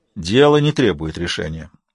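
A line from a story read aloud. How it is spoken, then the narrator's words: Plain. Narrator (Russian): ответил Солис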